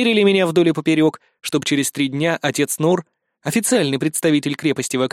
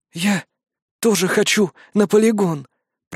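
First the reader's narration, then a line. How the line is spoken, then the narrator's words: Exhausted hoarse wheeze. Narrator (Russian): прохрипела Фарди, из последних сил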